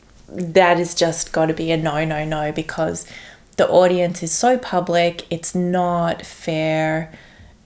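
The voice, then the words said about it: Strong Australian accent. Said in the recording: “That's the most Australian accent that I've heard. I don't know. It was so stark in that moment”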